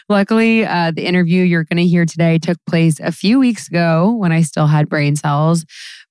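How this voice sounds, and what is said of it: Slightly hoarse voice. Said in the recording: “My voice might sound a little hoarse right now”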